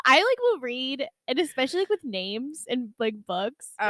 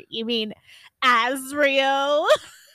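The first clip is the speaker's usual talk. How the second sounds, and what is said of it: Dramatic imitation of another person's voice. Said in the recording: “That was a very good impression of Jess... Because she's so dramatic.”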